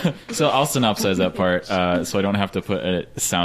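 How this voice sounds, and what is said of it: Usual voice. Nothing is said of it.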